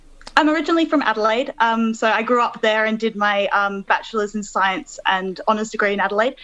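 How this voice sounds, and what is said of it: Australian accent. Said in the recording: “You definitely don't have a British accent, and you're from Melbourne originally?”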